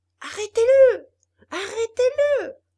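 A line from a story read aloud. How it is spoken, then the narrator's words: Screaming. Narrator (French): hurlait Geppetto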